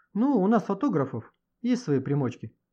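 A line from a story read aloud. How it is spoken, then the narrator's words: Laughing. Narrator (Russian): засмеялся Горенич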